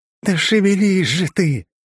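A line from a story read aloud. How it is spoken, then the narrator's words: Furious breath in ear. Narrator (Russian): яростно выдохнули в ухо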